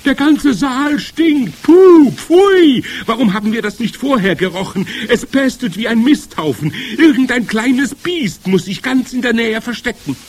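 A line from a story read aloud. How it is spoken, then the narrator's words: Shrieking. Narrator (German): kreischten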